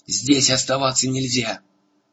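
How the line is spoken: Shouted. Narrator (Russian): Муртаг крикнул

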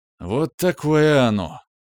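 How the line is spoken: Exaggerated heavy sigh. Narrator (Russian): преувеличенно тяжко вздохнул я

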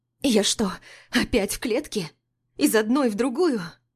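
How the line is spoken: Convulsive sobbing. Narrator (Russian): Судорожно всхлипываю

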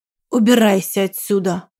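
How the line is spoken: Spluttering, furious growl. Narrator (Russian): прорычал он, разбрызгивая слюну изо рта

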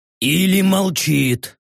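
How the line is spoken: Orc growling. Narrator (Russian): прорычал орк, наконец-то заговорив

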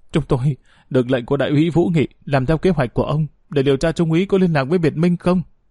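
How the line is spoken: Whimpering. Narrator (Vietnamese): Một tên mếu máo nói

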